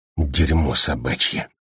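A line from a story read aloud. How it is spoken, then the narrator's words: Quiet but distinct. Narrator (Russian): кто-то негромко, но отчетливо произнес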